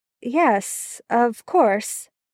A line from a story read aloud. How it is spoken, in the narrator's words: Merlin murmured